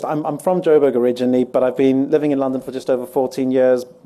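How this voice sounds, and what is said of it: Mixed-up accent. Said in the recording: “My accent's a bit mixed up.”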